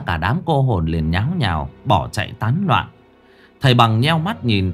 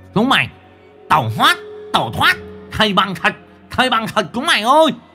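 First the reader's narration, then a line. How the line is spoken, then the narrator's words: Loud commanding voice. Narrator (Vietnamese): Nó lớn tiếng ra lệnh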